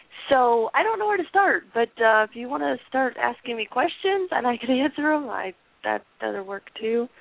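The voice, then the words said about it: Voice affected by illness. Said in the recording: “Please excuse my voice. I'm still trying to get over my crappy illness”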